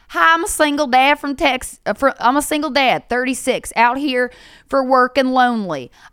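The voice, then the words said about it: Put-on Texas accent. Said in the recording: “He's from Texas. I'm not doing the right voice.”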